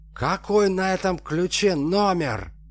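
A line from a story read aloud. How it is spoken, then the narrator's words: Yelled. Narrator (Russian): заорал Алексей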